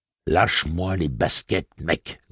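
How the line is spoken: Growled. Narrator (French): gronda Eddie

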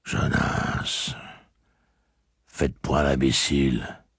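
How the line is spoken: Grumbled. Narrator (French): grogna Lenghil

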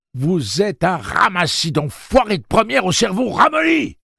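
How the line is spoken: Shouted. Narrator (French): leur cria Susanna

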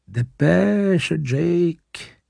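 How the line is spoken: Murmuring. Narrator (French): murmura Suzanne

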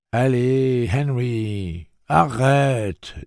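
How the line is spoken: Indulgent voice. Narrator (French): dit Eddie d'une voix indulgente

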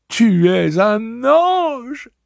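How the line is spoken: Exclamation. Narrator (French): s'exclamait Alain

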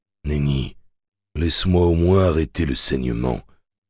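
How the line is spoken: Gentle tender murmur. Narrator (French): murmura, et il lui saisit la tête en glissant doucement les doigts dans le treillis serré de ses boucles

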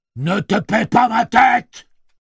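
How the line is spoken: Yelled. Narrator (French): hurla-t-il

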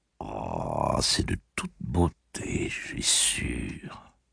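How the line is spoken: Murmured. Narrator (French): murmura-t-elle

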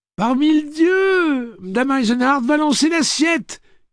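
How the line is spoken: Delighted shout. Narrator (French): cria Bennis Lightman aux anges

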